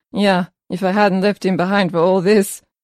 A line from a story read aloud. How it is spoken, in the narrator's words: laughed